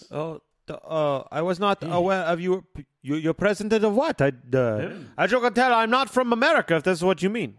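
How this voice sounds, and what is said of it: Inconsistent, wandering foreign accent. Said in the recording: “you cannot tell where you're from because your accent keeps going everywhere.”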